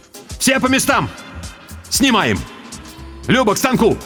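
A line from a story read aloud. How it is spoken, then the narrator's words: Shouted. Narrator (Russian): крикнул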